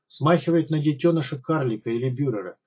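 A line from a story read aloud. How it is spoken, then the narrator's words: Calm comment. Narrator (Russian): довольно спокойно прокомментировал Покатилов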